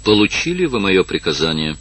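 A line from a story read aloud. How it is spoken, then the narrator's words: Cold question. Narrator (Russian): холодно спросила Евгения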